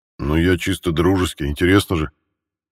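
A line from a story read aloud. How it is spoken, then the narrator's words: Chuckling. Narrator (Russian): хохотнул Михаил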